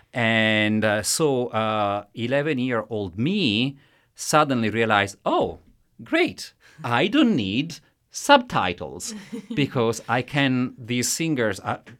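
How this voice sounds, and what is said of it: Italian accent. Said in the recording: “I am Italian, as you can tell from my accent”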